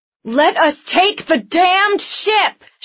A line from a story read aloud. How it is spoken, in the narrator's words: she yelled over the clash of metal